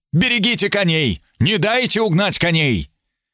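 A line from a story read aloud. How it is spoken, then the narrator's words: Shout. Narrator (Russian): Граф Эбергард прокричал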